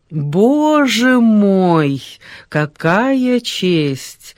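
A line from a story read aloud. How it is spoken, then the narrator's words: Lazy smiling exclamation. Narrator (Russian): воскликнула дама, лениво улыбаясь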